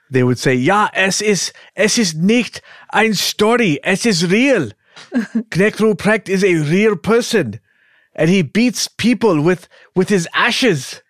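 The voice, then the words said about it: Put-on foreign accent. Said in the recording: “You like my accent”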